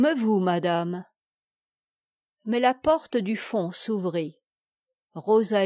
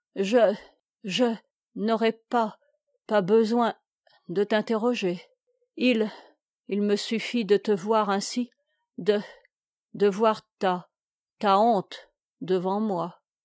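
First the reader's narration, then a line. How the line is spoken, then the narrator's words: Voice choked with emotion. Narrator (French): elle prononça d'une voix coupée par l'émotion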